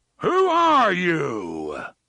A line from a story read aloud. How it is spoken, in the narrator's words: A voice roared, and it came not just from the box, but from every speaker in the city which still operated